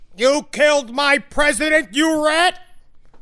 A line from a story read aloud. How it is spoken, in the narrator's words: yelled